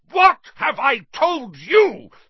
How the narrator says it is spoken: thundered his uncle, spraying spit over the table

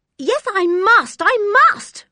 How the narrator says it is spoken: cried George

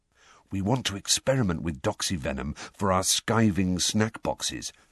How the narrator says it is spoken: George told Harry under his breath

